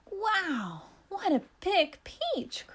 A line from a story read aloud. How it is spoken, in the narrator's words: cried the woman